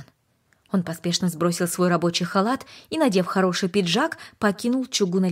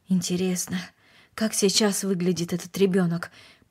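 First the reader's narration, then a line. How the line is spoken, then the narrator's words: Mumbling. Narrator (Russian): пробормотал он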